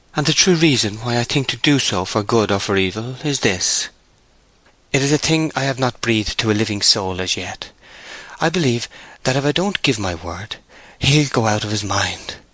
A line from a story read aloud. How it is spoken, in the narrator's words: said sadly